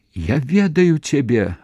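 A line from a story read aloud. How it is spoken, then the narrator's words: Sudden shout. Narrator (Belarusian): ратам закрычала яна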